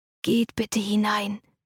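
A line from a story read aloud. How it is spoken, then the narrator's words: Whispering. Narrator (German): flüsterte der Diener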